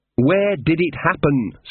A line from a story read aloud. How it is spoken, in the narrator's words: said Magrat, trying to speak slowly and distinctly